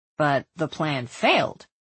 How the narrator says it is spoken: Tristan prompted him

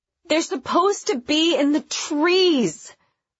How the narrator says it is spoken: Someone wailed

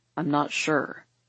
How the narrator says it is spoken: he says thickly

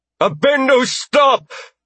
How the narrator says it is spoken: Jenna shouted

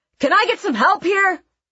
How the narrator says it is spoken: barked

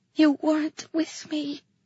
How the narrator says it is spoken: I whispered

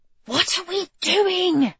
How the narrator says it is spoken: Jane hissed

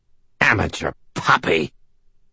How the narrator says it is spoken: Namshiel snarled

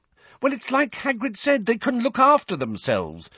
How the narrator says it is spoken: said Hermione impatiently

